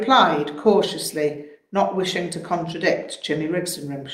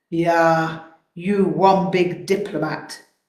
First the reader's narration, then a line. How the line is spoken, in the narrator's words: sighed